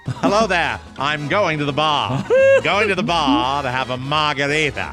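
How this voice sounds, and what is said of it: Pretentious mid-Atlantic Jack Cassidy impression. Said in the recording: “Jack, in his phony baloney, mid-Atlantic pretentious accent, was saying bar”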